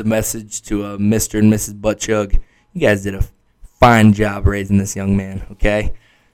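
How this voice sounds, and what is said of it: Hoarse, fading voice. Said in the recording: “losing my voice. I'm sure you could probably tell.”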